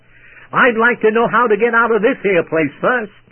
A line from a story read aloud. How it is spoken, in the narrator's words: She ... snapped very quickly back to say